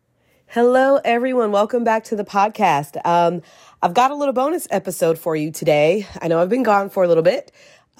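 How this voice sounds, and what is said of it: Sick, under-the-weather voice. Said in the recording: “Our family came down with a little bit of sickness, as you may be able to hear in my voice.”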